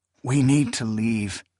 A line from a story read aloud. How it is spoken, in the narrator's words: he murmured